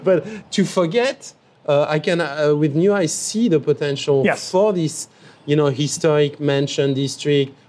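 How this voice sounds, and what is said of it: Foreign accent. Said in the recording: “as a foreigner, even if every day I'm more local besides ... my ... accent”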